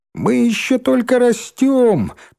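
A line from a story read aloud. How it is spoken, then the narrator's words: Squeaky voice. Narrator (Russian): писклявым голоском вставил Рыжий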